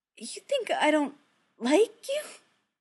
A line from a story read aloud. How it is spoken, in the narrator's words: Steve says, his voice cracking on it